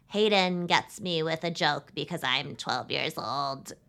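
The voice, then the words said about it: Jennifer Coolidge-like voice, younger. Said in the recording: “a good Gabby impression... you really have to do a Jennifer Coolidge voice plus age it down 10 years”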